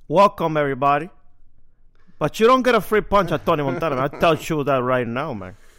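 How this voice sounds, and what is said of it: Movie gangster character voice. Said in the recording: “my Tony Montana impression”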